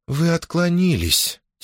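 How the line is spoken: Soft moan, princess. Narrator (Russian): тихонечко простонала принцесса

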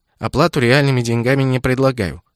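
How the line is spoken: Dry. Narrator (Russian): сухо закончила

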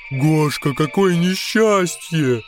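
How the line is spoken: Shouting in foolish voice. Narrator (Russian): закричал один идиотским голосом

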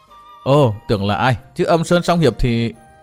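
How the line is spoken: Affected simpering voice. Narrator (Vietnamese): Phiêu Ba óng ẻo với giọng òn ẻn nói

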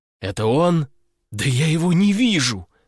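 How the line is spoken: Desperate exclamation. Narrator (Russian): в отчаянии воскликнул я

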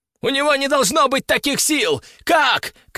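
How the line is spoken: Enemy shouting. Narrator (Russian): кричал кто-то из врагов

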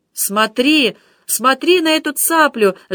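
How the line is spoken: Ardent shout. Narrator (Russian): с жаром кричал граф Шатиллон

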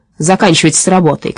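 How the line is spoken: Shout. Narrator (Russian): крикнул он Касперлю и Сеппелю

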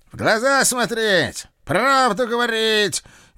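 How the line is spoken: Sudden roar. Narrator (Russian): неожиданно взревел гражданин бессмертный

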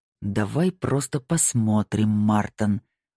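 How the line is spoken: Growling. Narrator (Russian): прорычал ван Нистельрой

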